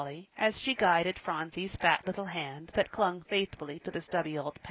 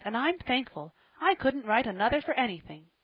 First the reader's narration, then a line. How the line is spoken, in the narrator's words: she cried